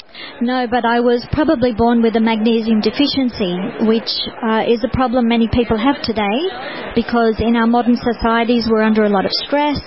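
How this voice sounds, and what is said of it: Australian accent. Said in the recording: “it's lovely to have an Aussie accent on the air right now ... So I have an Aussie accent.”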